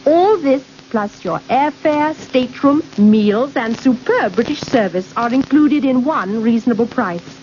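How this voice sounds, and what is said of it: Elegant accent. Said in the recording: “Oh, what an elegant accent. ... Very elegant.”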